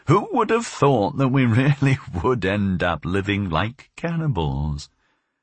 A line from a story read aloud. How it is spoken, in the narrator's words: she would say, laughing